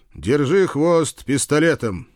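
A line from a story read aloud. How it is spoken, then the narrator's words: Loud shout. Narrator (Russian): громко прокричал я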